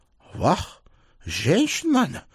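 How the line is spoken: Exclamation. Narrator (Russian): воскликнул он

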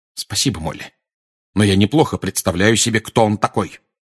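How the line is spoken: Cold reply. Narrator (Russian): холодно ответил Сириус

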